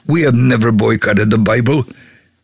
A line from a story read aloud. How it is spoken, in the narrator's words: One yelled